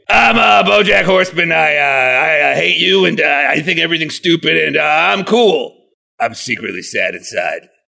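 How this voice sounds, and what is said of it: Impression of a cartoon character. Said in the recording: “my impression of every episode of BoJack Horseman”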